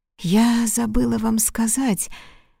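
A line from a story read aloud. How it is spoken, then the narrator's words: Barely audible. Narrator (Russian): начала она едва слышным голосом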